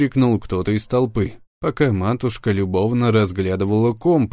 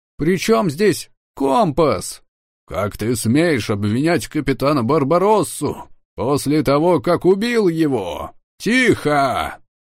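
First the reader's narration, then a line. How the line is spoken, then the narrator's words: Sudden loud bark. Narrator (Russian): Неожиданно громко рявкнул мой приемный отец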